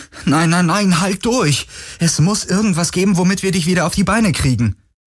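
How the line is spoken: Calling out. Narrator (German): rief Galen

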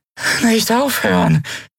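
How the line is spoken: Weak, exhausted croak. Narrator (German): krächzte sie matt und ausgezehrt

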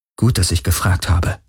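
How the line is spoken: Murmur. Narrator (German): murmelte Kirai

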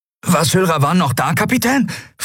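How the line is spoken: Excited question. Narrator (German): fragte Miko aufgeregt

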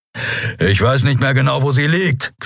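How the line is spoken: Growled. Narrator (German): knurrte er

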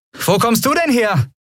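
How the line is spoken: Calling out. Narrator (German): rief Andriel

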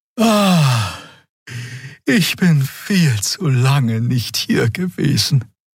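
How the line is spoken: Sighing. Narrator (German): seufzte Xea

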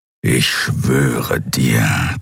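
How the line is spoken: Creature growling. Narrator (German): knurrte das Kriar

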